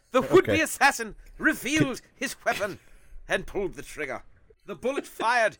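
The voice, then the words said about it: Dramatic mid-Atlantic put-on accent. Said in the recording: “Is that an accent? ... It was a dramatic effect accent. ... It's British. ... There's a little bit of British in there ... It's not specifically British. It's like mid-Atlantic.”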